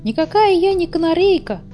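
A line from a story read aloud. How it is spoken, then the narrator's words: Squeaky high voice. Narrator (Russian): пропищала одна, та, что была к ним поближе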